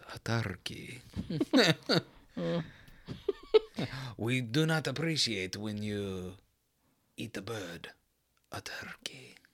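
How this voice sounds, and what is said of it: Put-on Turkish accent. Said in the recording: “That's how their accent goes ... What accent are you doing? ... Turkish.”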